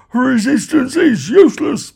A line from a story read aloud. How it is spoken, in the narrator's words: bellowed the guard